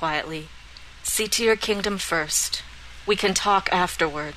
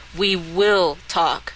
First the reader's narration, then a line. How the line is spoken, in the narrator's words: she said firmly